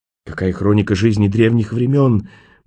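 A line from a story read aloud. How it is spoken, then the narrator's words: Reverent breathy young woman. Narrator (Russian): благоговейно выдохнула молодая женщина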